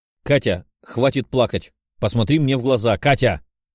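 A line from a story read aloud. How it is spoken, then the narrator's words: Barked shout. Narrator (Russian): рявкнул парень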